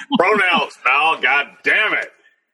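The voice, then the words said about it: Imitates another person's voice. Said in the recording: “your Vince McMahon impression”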